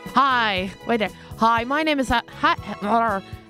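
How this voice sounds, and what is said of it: American accent. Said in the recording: “I don't know why I'm sounding American.”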